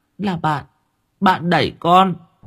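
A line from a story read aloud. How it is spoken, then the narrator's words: Child whimpering, near tears. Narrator (Vietnamese): Thằng bé mếu máo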